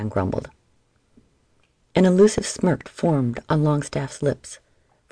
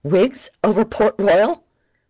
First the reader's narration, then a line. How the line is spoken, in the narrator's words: Mould shouted